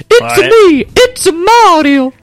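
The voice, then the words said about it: Cartoonish Mario character voice. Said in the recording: “my Mario voice”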